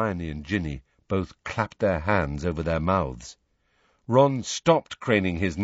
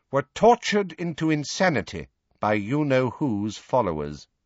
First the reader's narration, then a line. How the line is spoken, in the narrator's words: she said, turning haughtily